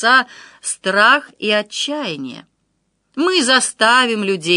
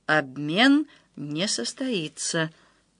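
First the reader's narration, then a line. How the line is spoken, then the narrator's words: Quiet but confident. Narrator (Russian): тихо, но уверенно сказал Данила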